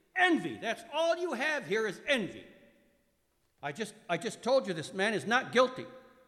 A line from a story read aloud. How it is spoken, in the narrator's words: Pilate shouted angrily